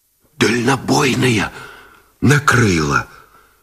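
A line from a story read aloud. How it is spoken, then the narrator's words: Strained whisper. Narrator (Russian): Шепотом выдавил связист Гусев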